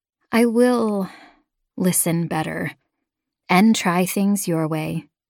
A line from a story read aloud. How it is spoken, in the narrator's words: I sighed